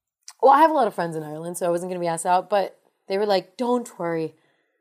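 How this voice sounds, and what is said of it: Usual voice. Nothing is said of it.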